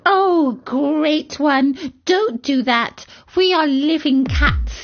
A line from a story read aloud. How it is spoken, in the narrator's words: I begged him